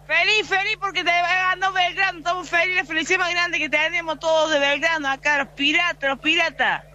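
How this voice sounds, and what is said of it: Regional Argentine accent, sing-song lilt. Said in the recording (Spanish): “Qué lindo escuchar esa tonada”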